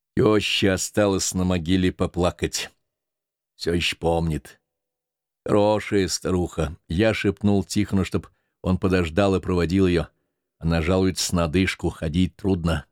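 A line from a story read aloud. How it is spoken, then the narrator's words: Plain. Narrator (Russian): говорит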